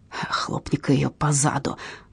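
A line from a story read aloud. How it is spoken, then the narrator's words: Low-voiced advice. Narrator (Russian): вполголоса посоветовал Кристиан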